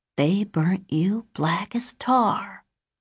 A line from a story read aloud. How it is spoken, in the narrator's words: she whispered